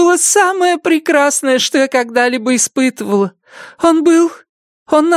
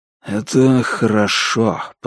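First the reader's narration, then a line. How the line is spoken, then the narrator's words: Whisper. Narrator (Russian): прошептал он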